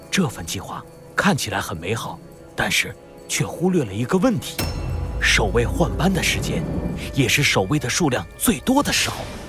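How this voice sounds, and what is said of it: Low, serious hushed voice. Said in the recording (Chinese): “他用严肃的表情低声说道”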